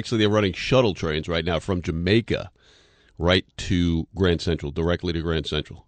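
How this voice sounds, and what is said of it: Polished radio announcer voice. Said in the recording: “Your voice sounds totally different on the radio... I put on my radio voice?... It's a magnificent voice.”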